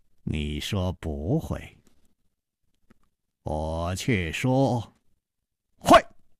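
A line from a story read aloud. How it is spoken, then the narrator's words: Slow smile. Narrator (Chinese): 楚留香缓缓地笑了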